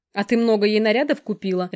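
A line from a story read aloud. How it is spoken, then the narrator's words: Barked. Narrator (Russian): рявкнула Алекс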